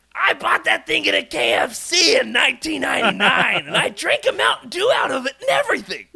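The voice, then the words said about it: Loud impression of a shop owner. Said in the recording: “this is my best impression, I'm not exaggerating ... I'm sorry for the levels for our audio editor”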